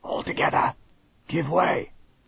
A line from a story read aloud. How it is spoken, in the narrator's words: he whispered